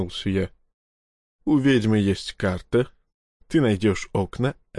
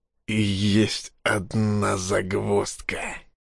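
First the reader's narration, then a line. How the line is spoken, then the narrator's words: Hoarse exhale. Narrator (Russian): хрипло выдохнул я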